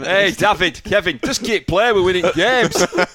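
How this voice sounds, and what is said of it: Pep Guardiola with Barnsley accent. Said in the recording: “lovely accent ... from Barnsley. Pep Guardiola.”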